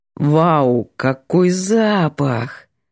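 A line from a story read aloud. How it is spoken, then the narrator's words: Contented drawl. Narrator (Russian): Довольно протянул парень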